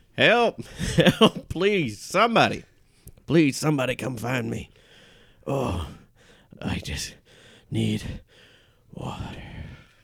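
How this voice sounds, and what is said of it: Parched pleading voice with natural accent. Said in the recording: “She was so parched that her real accent was finally coming through.”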